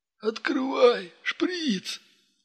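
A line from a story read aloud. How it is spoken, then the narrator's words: Whining addict. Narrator (Russian): проскулил наркоман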